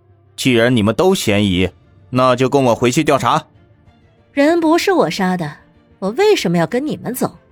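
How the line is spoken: Low, stern interruption. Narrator (Chinese): 陈队长沉声打断

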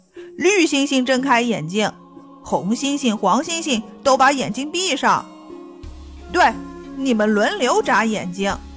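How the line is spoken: Loud clamoring. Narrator (Chinese): 汽车们大声嚷嚷

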